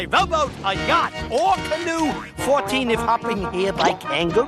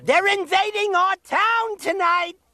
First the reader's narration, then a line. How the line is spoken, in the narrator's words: he screamed quite loud